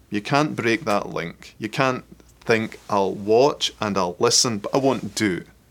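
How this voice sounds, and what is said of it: Scottish accent. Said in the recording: “I never get tired of listening to ... Scottish accent”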